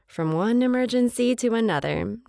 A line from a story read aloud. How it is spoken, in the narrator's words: Nana chuckles